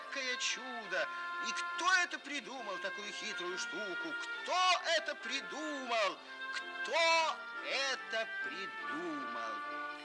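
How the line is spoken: Frog shouting at full volume. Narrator (Russian): лягушка не выдержала и, забыв всякую осторожность, закричала изо всей мочи

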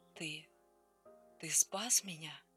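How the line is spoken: Whisper. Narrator (Russian): прошептала она

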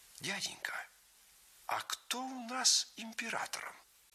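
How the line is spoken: Quiet question. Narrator (Russian): он тихонько спросил у старого гвардейца

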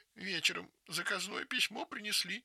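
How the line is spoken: Sobbing narration. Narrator (Russian): рассказывает Галя, всхлипывая

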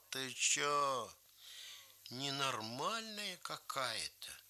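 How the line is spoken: Quiet. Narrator (Russian): Гринька тоже негромко сказал

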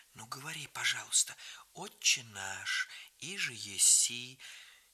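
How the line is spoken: Quiet, almost whispering. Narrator (Russian): просила тихонько, почти шепотом

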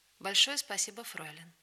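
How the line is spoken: Warm, quiet, friendly. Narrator (Russian): ласково улыбнулся мне и негромко сказал дружеским тоном

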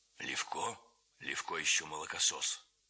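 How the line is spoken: Hoarse low male voice. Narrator (Russian): говорил хриплый вполголоса высокий человек

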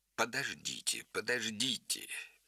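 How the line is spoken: Interrupting, laughing. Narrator (Russian): перебил его Холмс, смеясь

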